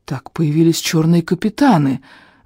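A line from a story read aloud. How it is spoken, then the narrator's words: Breathless exhale. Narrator (Russian): выдохнул я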